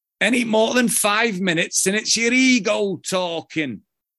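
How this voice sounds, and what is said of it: Put-on Yorkshire accent. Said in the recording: “Let me see if I can do the Yorkshire accent”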